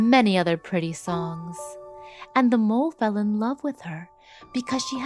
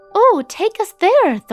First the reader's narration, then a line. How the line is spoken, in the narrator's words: Thumbelina exclaimed